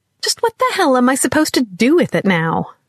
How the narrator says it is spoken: she snapped at the cat

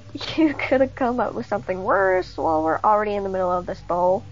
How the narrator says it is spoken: Cindy nervously laughed while saying

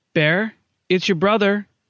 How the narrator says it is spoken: called out

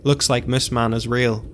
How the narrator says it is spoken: Oren said as he patted Connor's back and chuckled nervously

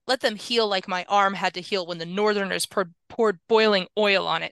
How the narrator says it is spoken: snapped Dawei

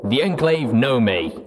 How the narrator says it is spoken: growled despondently

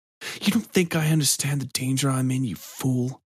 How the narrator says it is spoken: Mock hissed

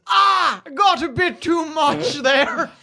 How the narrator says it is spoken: When Hector pulls out one of his quills, he screams

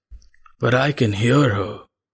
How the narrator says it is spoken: rasped the man

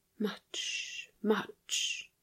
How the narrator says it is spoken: she whispered

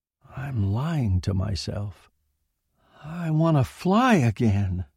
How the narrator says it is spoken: he felt the hot tears stinging his eyelids and whispered blindly

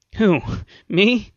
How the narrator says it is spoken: The engineer grinned nervously

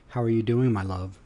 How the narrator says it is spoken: asked her

